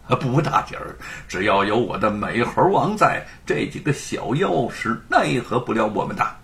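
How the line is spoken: Laughing man. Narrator (Chinese): 吴承恩 笑着说

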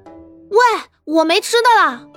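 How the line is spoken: Hurried shout. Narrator (Chinese): 赶紧又朝活宝大喊

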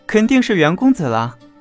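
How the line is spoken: Child's cheerful greeting. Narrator (Chinese): 小童看见袁耀，笑着招呼

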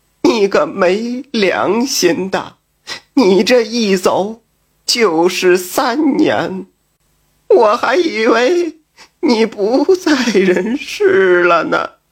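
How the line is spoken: Tearful, surprised and joyful. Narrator (Chinese): 妻子又惊又喜，哭着说

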